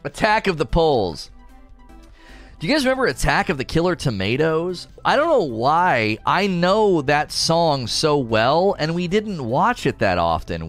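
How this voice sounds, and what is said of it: Scratchy voice. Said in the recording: “I'm still scratchy from allergies”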